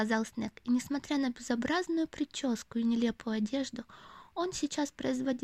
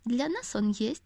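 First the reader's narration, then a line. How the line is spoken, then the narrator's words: Plain. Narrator (Russian): ответил Снег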